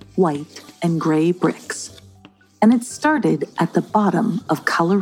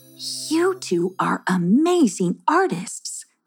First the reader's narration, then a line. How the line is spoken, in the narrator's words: she exclaimed